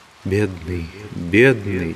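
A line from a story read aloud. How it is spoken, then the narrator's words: Soundless whisper. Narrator (Russian): беззвучно зашептала Маргарита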